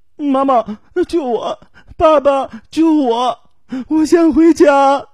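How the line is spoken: Boy crying over phone. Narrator (Chinese): 电话里出现了一个男孩的哭声

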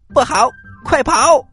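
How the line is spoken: Loud shout. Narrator (Chinese): 悟空 大叫一声

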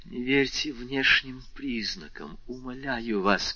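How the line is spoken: Whisper. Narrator (Russian): прошептала она

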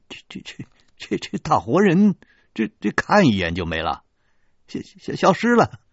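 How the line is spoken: Stammering wry laugh. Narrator (Chinese): 苦笑说

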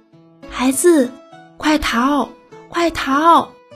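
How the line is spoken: Frantic mother shouting. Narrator (Chinese): 壁虎妈妈真急坏了，大声喊着

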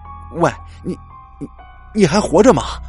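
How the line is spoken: Blurted out. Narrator (Chinese): 不知道怎么的，李平三冒出了这么一句话

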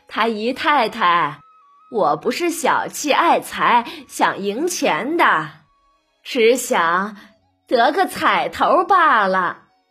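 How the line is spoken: Cheerful, laughing. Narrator (Chinese): 贾母又扭头对薛姨妈笑着说

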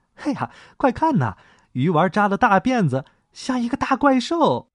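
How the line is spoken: Mocking boys. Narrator (Chinese): 男孩们嘲笑，他们笑话他

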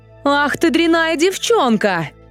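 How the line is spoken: Mother's angry shout. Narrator (Russian): закричала мать

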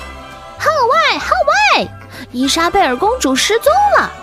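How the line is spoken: Shouting while running. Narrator (Chinese): 卖报的猴子还边跑边喊

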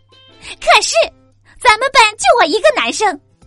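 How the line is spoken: Angry male shout. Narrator (Chinese): 那个男生一下子就怒了，大喊

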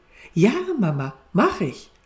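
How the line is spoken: Cheerful answer. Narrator (German): Elli antwortete fröhlich

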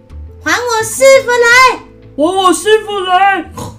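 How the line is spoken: Repeated shouting. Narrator (Chinese): 又连声叫道

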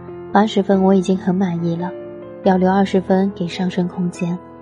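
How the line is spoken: Smiling. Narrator (Chinese): 我笑着

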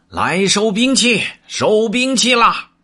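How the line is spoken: Loud stern shout. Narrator (Chinese): 呵呵呼呼 厉声高叫道

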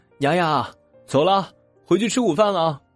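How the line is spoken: Calling from afar. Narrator (Chinese): 阿姨老远的喊着

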